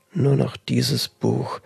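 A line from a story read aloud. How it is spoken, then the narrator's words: Murmuring to herself. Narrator (German): murmelte sie in sich hinein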